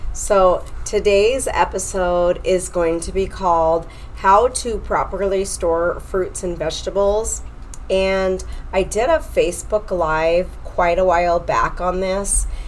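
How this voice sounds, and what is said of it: Nasal, deep congested voice. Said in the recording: “I'm a little nasally. I do have allergies ... I've got that like deep voice.”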